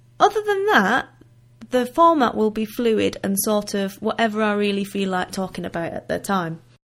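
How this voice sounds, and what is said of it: Northern English accent. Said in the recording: “I have an accent. I am Northern.”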